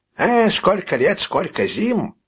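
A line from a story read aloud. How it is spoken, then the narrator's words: Exclamation. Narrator (Russian): воскликнул Бубе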